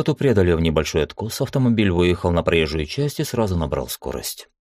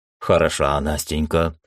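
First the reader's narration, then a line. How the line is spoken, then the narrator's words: Laughing chuckle. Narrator (Russian): хохотнул Скала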